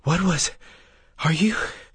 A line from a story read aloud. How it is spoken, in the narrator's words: From the floor, Breas gasped